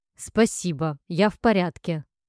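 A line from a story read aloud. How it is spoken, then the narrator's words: Snapped. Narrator (Russian): огрызнулась я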